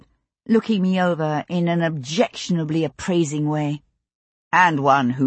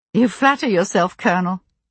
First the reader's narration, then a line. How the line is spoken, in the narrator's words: I said dryly